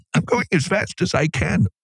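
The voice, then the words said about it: Imitates another person's voice. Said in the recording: “my impression of my wife”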